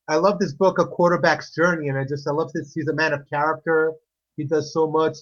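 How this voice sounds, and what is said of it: Slight Greek accent. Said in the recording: “I detect a slight accent ... the Greek accent”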